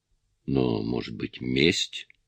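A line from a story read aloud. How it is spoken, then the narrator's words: Mutter. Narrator (Russian): пробормотал полицейский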